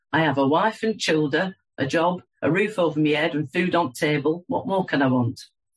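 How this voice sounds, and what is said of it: Broad Lancashire accent. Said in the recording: “In his broad Lancashire accent, my dad would always say”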